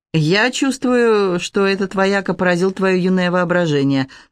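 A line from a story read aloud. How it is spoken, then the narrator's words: Mocking. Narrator (Russian): насмешливо отзывался Андрей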